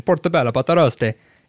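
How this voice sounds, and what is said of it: Put-on Italian accent. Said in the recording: “I said in Italian accent”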